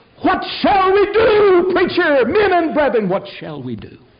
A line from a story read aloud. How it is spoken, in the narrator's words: shouted and said